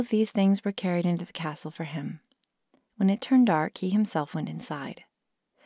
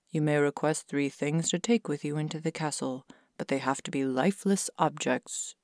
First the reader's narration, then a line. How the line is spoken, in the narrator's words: the king said